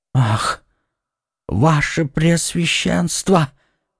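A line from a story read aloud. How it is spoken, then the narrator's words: Terrified whisper. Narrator (Russian): прошептал Бонасье в ужасе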